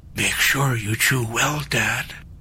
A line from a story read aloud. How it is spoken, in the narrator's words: JJ whispered